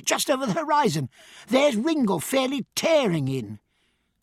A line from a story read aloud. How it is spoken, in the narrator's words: cried Bridget